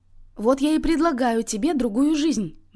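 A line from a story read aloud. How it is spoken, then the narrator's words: Exclaimed. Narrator (Russian): воскликнула она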